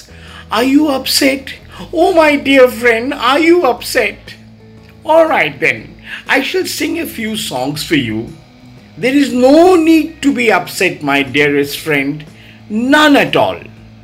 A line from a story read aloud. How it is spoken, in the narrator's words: he was so shameless, he continued whining next to my ears